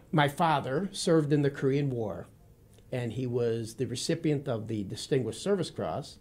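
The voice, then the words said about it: Midwestern American accent. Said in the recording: “I have an accent that is not Texas... It's unique... it's a Midwestern accent, the state of Wisconsin”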